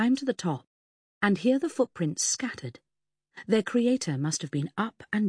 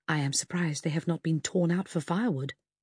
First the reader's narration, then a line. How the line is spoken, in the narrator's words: whispered